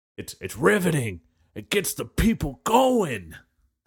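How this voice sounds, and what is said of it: Imitates another person's voice. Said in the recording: “I'm going to do my impression ... that one comedian”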